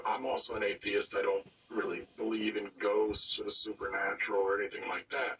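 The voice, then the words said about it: Sick, slightly off-sounding voice. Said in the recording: “I'm a bit sick, so my voice is a little wonked ... my voice is a bit funky”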